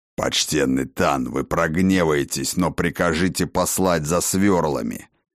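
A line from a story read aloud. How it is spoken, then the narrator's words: Deep bass voice. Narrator (Russian): пробасил вернувшийся со своими орк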